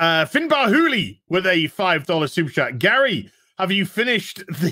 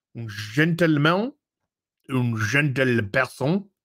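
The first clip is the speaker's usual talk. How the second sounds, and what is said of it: Put-on French accent. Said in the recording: “as would say in a French accent”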